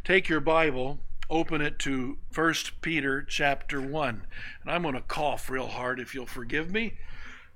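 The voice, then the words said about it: Rough, impaired voice. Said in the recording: “Please forgive my voice. I am waiting for all the crud to die from the cold”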